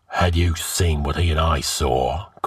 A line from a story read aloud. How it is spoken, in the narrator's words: growled the king